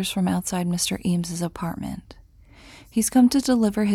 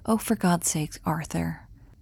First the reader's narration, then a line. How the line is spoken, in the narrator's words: Eames is sighing